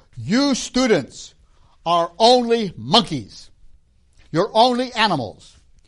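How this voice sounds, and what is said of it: Shouting. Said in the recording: “She's shouting, proclaiming scientific truth”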